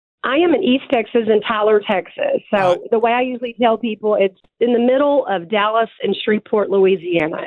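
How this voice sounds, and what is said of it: Texan country twang accent. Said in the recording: “I love your accent. It makes me miss home ... a little twang ... am I really that country?”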